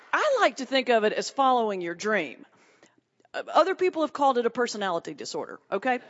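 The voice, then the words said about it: Southern US accent. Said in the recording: “you can maybe tell from my accent, I'm not from New York City ... are there any Southerners here tonight? ... So four people will understand what I'm saying ... I know we talk different”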